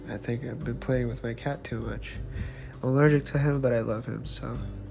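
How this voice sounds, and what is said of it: Slightly nasal voice. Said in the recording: “my voice is a little nasally is because I have two tissues stuck on my nose holes nostrils”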